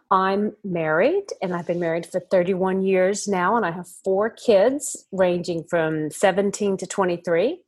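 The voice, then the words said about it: Mixed American-Australian accent. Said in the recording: “I'm guessing you can hear an accent. I'm from America originally, but I've lived in Australia now for half of my life ... I can't even remember what's American and what's Australian now.”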